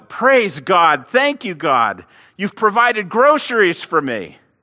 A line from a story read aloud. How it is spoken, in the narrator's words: the lady yelled out